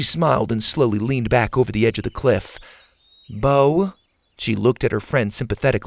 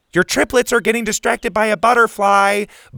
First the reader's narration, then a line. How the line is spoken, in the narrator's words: Bo shouted down to her